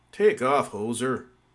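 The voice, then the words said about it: Good put-on Canadian accent. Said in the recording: “your Canadian accent's gotten really good.”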